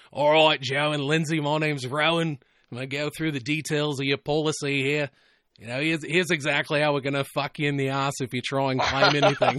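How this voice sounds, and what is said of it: Imitated Australian accent, fairly decent. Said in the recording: “Your Australian accent was not too bad there. It was not the worst that I've heard. ... you just got to ease a little bit more into the nasal passages”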